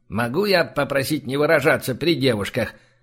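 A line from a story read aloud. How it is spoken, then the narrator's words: Grimacing grumble. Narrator (Russian): скривившись, пробурчал один Ри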